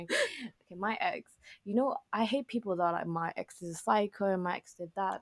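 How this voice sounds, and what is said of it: Whispering. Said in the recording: “are you whispering? ... That's why I'm whispering.”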